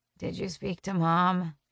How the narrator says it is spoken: grumble

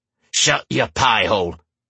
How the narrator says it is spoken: one of the thieves growled

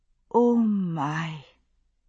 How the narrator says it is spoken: Jenny said softly

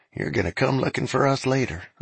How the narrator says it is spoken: under his breath

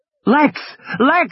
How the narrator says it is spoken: he was screaming

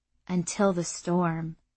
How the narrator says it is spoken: Irsa said quietly

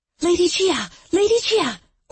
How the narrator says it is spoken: Orchid exclaimed, out of breath

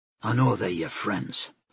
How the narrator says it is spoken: Olam said softly

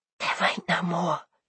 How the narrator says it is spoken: she whispered

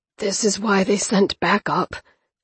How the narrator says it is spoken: Toby murmured, his face ghost white

